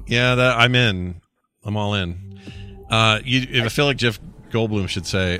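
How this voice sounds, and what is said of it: Usual voice. Nothing is said of it.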